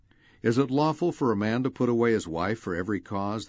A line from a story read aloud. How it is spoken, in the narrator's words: they asked